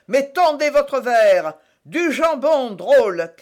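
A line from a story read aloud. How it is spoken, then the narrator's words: Shouted. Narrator (French): cria Athos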